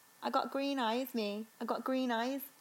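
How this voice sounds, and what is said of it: Put-on Birmingham accent. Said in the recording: “I can only do Birmingham. Can I do my little? But I can only say one phrase.”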